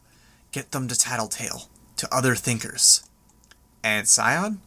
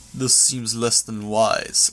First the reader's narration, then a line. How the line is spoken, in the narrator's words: Long growled